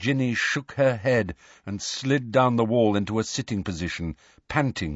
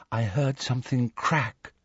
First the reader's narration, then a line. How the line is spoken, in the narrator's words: whispered Luna